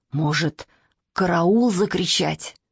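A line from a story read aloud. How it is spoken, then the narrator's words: Hoarse whisper. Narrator (Russian): сказал он охрипшим шепотом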